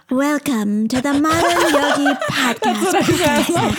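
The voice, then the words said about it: Imitates another person's voice, AI-like. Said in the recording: “You imitating my voice. ... It feels AI generated.”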